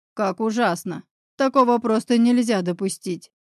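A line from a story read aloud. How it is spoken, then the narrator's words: Very serious deep bass. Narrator (Russian): крайне серьезно пробасил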